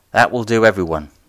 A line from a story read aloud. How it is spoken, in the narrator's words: Lord Muldrow said, raising his voice above the level of the general conversation